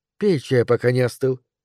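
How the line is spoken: Quiet. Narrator (Russian): негромко сказала она

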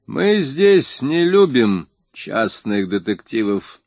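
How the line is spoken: Clipped, emphatic. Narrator (Russian): отчеканил он

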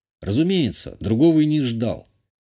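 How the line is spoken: Calm reply. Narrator (Russian): спокойно ответил я

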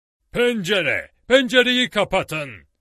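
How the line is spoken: Shouted. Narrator (Turkish): diye bağırdı Challenger

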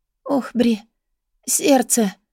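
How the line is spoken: Moaned. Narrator (Russian): простонала София

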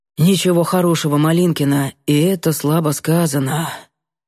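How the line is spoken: Breathy exhale. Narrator (Russian): выдохнул парень

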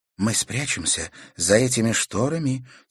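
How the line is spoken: Soft whisper. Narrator (Russian): тихонько шепнула друзьям Катерина

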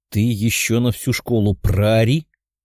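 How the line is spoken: Growl. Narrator (Russian): рыкнул Тео

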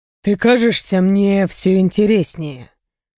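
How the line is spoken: Purred. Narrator (Russian): буквально промурлыкал Рэй

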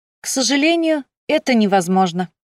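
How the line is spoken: Cheerful reply. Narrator (Russian): весело ответила

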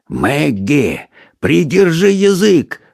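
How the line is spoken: Booming whisper. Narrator (Russian): промолвил он громовым шепотом

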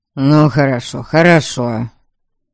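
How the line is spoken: Grumbling father. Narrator (Russian): проворчал мой отец

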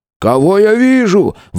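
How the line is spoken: Exclaiming. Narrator (Russian): воскликнул Колин

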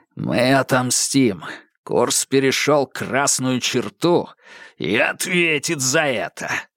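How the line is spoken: Growled. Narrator (Russian): прорычал капитан

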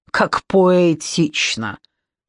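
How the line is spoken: Scornful snort. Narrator (Russian): фыркнула Ирина Анатольевна

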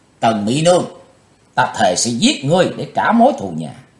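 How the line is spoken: Loud shout. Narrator (Vietnamese): chàng quát lớn

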